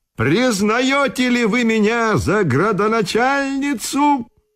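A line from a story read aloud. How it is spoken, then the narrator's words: Shouting. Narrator (Russian): кричала на них Ираидка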